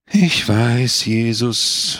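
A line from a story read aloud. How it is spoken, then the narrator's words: Sighing. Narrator (German): seufzte wieder Don Camillo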